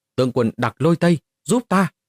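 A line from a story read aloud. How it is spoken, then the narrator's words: Terrified loud cry. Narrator (Vietnamese): Mục Thiên Hoa lập tức quá sợ hãi, cao giọng hô to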